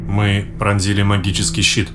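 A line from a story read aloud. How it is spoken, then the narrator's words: Quiet speech. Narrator (Russian): негромко произнес Трерк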